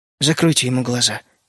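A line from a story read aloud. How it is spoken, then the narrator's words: Quiet request. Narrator (Russian): негромко попросил Генри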